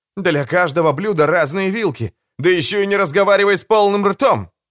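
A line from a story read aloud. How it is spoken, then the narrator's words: Contemptuous snort. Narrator (Russian): презрительно хмыкнул Эймс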